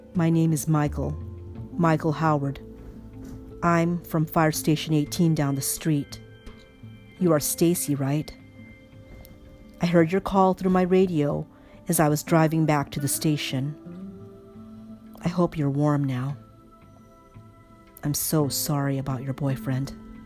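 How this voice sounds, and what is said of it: Very calm voice. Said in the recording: “He says this in a very calm voice.”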